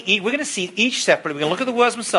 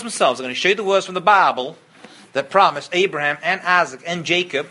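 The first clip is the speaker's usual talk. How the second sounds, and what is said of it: Put-on American accent. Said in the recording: “That's my American accent. You like that? Was that good? My Persian accent is much better.”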